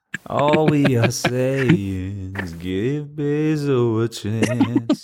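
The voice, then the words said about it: Sung imitation of the Beatles. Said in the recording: “That was the Beatles ... impression”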